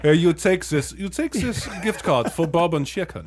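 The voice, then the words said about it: Inconsistent put-on foreign accent. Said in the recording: “we are really fucking up with the fucking the accents ... you went from like some kind of indiscriminate Southeast Asian to like Berlin, Germany ... That was pretty good”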